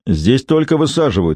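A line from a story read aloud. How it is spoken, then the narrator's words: Barked. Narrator (Russian): рявкнул он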